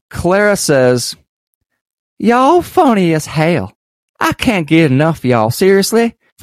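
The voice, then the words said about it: Put-on South Carolina accent. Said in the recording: “you got to try with the accent then ... Sorry to all of our South Carolina listeners ... we mean no disrespect with our impersonations”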